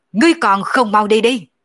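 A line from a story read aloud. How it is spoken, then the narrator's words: Angry roar. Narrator (Vietnamese): nổi giận gầm lên một tiếng nói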